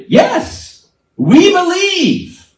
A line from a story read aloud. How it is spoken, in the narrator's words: The crowd shouted